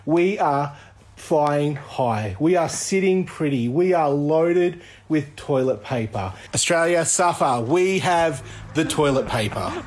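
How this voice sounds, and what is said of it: Australian accent. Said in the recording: “I love the Australian accent.”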